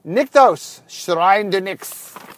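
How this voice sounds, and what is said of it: Odd put-on accent. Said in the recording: “I have no idea what accent that was.”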